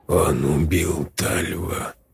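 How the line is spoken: Whisper. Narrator (Russian): прошептал Давид Моисеевич

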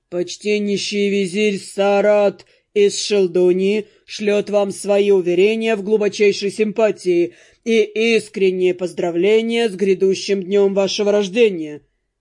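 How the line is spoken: Solemn. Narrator (Russian): торжественно произнес черноволосый

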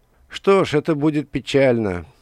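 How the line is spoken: Feigned sigh. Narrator (Russian): Владыка наигранно вздохнул

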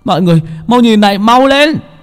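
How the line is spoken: Sudden shout. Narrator (Vietnamese): Chợt Bảy Ếch la lên

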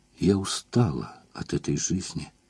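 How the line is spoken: Weak whisper, bitter sobbing. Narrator (Russian): сказала она шепотом и обессиленно горько заплакала

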